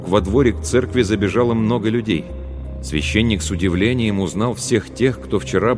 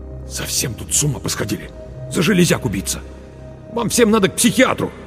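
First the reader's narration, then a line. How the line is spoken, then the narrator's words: Hissed through clenched teeth. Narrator (Russian): Марк процедил сквозь зубы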